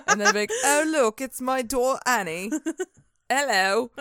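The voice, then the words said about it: Failed Scottish accent, sounds British. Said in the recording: “I don't know what accent that is ... That's British. I'm so sorry. I cannot do a Scottish accent.”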